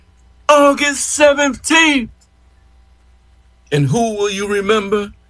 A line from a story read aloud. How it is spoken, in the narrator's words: we all shouted